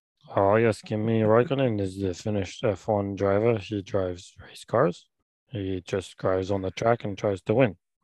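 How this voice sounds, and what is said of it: Imitates another person's voice. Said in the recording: “my terrible Kimi Raikkonen impression ... That's a really good, strong Kimi impersonation”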